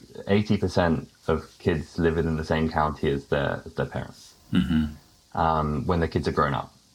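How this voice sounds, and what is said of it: British accent. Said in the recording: “listeners may recognize my accent as being British”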